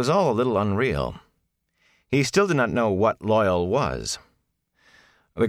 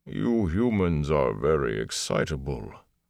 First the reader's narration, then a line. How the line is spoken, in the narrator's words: Loyal said in his bass rumble